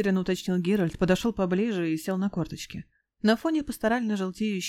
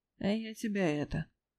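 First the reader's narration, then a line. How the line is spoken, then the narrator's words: Sad confirmation. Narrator (Russian): грустно подтвердил Лютик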